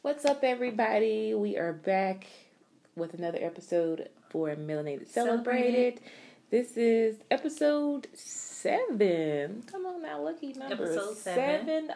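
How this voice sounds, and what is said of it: Tired-sounding voice. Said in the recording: “You sound a little tired. ... You sound tired”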